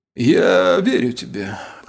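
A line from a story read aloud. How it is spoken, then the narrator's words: Hoarse voice. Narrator (Russian): хрипло проговорил Трагвар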